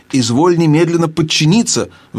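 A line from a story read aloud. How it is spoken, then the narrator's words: Uncle's shrill squeal. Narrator (Russian): взвизгнул дядя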